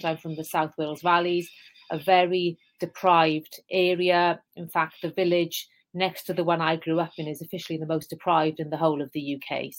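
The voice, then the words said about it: Welsh accent. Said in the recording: “as you can tell, I have a Welsh accent.”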